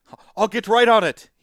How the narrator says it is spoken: he shouts

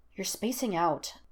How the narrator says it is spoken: Todd muttered after a long silence

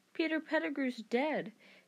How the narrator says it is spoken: said Harry

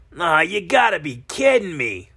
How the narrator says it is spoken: Harley shouted

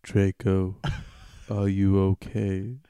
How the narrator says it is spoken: I asked in a gothic voice

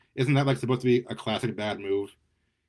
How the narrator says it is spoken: Nikki laughed nervously

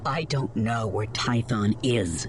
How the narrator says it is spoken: she snapped back through clenched teeth

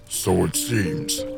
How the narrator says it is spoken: grunted Darf

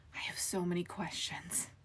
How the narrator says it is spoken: Finbar breathed

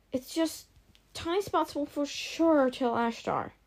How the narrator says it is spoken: she mumbled

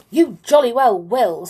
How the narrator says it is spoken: said the clown angrily

